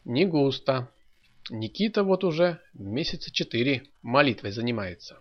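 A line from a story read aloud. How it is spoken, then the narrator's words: Plain. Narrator (Russian): сказал Федор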